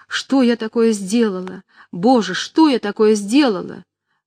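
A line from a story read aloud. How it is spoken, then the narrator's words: Frightened, desperate exclamation. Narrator (Russian): Аня в испуге в отчаянии воскликнула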